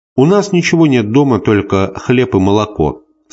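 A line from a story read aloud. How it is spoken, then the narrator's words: Plain. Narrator (Russian): сказала она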